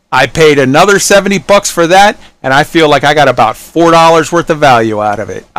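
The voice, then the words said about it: Angry, venomous ranting tone. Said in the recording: “I sound angry. I know I sound venomous.”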